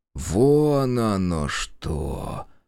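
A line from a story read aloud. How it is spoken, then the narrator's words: Drawn-out drawl. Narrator (Russian): протянул он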